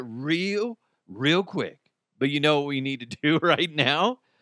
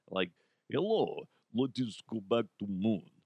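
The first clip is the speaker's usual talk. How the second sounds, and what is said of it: Attempted Russian accent, Count-like. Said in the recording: “That kind of sounded like the Count real quick. That was supposed to be a Russian accent.”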